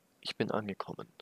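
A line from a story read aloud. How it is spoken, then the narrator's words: Almost toneless murmur. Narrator (German): murmelte sie fast tonlos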